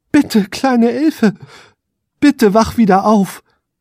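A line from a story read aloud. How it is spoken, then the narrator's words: Desperate pleading. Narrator (German): flehte er verzweifelt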